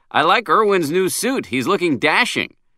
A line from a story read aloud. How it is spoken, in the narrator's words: I blurted out with forced jollity